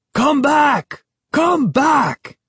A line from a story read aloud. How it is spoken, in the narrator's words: Behind us, I could hear Ahmed shouting furiously